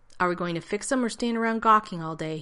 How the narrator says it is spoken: he asked sharply

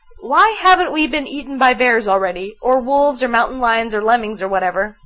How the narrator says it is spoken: Fraser laughed

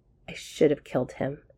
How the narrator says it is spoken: Shepard muttered

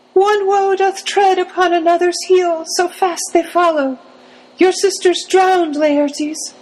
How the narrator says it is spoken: cried the Queen

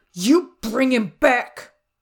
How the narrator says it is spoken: Dean snarled

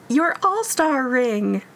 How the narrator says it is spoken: she exclaimed

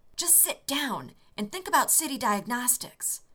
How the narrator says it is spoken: Rodney hissed back

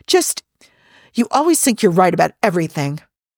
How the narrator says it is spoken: Peter groaned

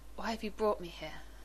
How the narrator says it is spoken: he asked hoarsely

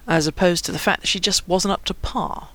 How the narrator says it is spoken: Lance observed dryly

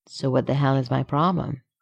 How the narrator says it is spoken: he asks softly

